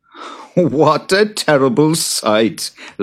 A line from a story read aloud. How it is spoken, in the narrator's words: laughed Jude